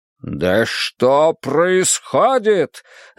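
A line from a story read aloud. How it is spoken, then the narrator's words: Barked. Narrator (Russian): рявкнул Цинь Шихуанди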